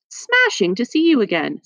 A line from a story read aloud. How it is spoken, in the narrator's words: said Nellie cheerfully